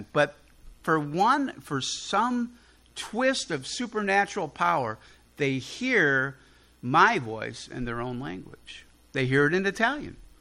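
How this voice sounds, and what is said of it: Chicago accent. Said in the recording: “I speak Chicagoese ... Born and raised on the south side of Chicago ... they hear my Chicago accent.”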